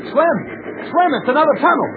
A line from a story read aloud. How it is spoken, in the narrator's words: called out